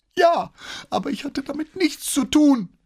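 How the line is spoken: Whining. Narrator (German): jammerte der Junge

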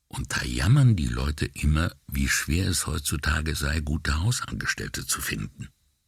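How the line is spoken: Quiet. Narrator (German): Brunetti sagte leise zu Paola

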